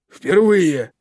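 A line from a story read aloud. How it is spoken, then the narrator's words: Barked. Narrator (Russian): рявкнул мистер Питерсон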